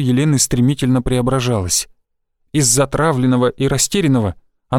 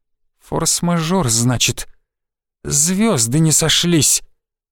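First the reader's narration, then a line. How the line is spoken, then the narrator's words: Tense hissing voice. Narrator (Russian): С шипением и напряжением в голосе произнесла она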